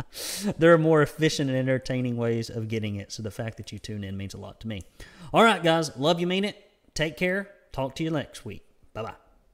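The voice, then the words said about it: Nasal voice, Southern redneck accent. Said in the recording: “my nasally voice and my redneck accent and my terrible wandering delivery”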